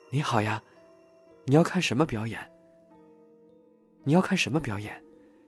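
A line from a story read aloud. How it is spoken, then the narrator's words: Loud shout. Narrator (Chinese): 张先生大叫一声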